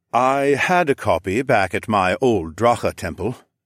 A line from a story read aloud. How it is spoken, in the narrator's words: Xoclan sighed